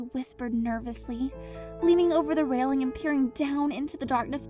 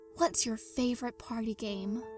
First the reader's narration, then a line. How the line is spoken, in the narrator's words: he asked quietly